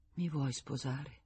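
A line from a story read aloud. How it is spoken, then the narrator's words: Murmur. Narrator (Italian): Mormorò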